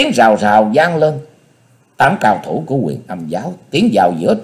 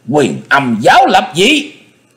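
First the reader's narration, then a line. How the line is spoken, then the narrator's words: Sudden hiss. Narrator (Vietnamese): Bỗng nhị đầu thái tử rít lên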